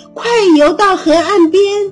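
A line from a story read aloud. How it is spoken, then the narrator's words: Loud shout. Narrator (Chinese): 青蛙大叫着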